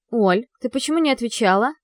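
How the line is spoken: Stern, anxious question. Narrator (Russian): Строго спрашиваю я, потому что за это время успела перенервничать и разволноваться

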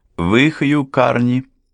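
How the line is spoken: Composed, brisk question. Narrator (Russian): Взяв себя в руки, бодро поинтересовался молодой адвокат

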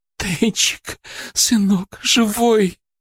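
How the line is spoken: Sobbing. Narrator (Russian): рыдала она

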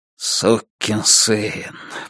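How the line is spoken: Muttering. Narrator (Russian): бормотал Дилейни

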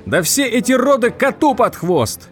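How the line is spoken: Yelling. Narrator (Russian): заорал Тед

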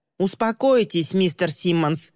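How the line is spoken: Elderly man shouting. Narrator (Russian): выкрикнул тощий, как щепка, пожилой мужчина

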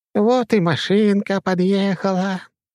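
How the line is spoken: Gentle affectionate voice. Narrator (Russian): ласковым голосом сообщила мне Огородникова

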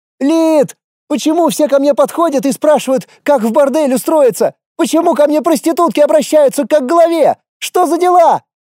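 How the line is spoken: Hysterical shrieking. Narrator (Russian): Истошно вопила она на всю офицерскую столовую

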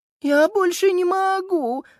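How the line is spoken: Moan from behind. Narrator (Russian): застонала Сузи за спиной Макса

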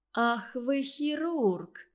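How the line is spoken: Genuinely surprised exclamation. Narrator (Russian): с неподдельным удивлением воскликнула Раечка

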